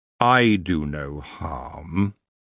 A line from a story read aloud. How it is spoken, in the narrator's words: he added lazily